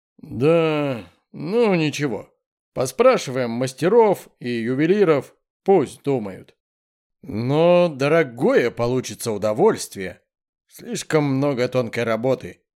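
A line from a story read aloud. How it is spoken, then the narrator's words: Displeased grumbling. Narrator (Russian): недовольно пробурчал Мальцев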